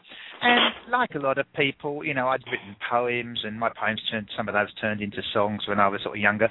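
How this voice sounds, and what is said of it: English accent. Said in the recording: “I'm English ... English accent”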